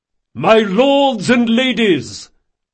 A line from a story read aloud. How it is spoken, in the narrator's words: Reynard bellowed at the top of his voice